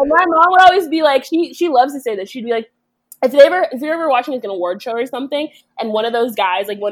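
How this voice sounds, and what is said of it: Usual voice. Nothing is said of it.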